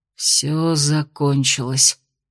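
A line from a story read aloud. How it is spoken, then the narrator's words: Hoarse rasp. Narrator (Russian): прохрипел Кирсан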